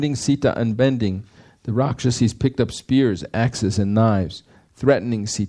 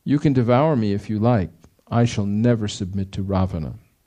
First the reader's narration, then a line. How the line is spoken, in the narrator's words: Sita, however, calmly replied